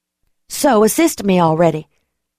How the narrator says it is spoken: I snapped

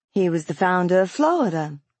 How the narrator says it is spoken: Ruby said brightly

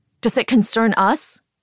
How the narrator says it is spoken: I shout

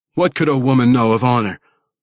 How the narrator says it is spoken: Wolfgar shot back angrily

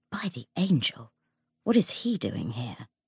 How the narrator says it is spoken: James swore softly

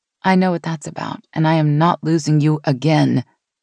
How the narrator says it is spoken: she said it fiercely, as if she dared the past to repeat

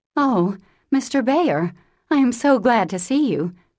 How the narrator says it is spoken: cried Jo with a clutch, as if she feared the night would swallow him up before she could get him in

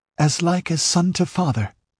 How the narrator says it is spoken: she answered, and hesitantly

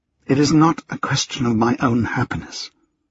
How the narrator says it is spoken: she finally said, her voice quiet, almost broken

